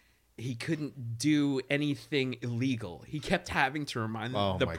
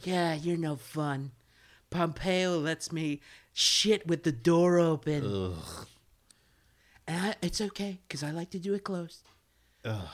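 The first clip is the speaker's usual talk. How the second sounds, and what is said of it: Impression of the president's voice. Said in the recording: “doing that voice. That voice annoys the shit out of me ... It's a good impression”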